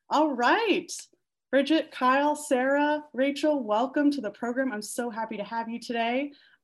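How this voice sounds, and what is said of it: Smooth, soothing radio voice. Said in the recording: “you have an amazing radio voice? ... It's perfect. It's soothing.”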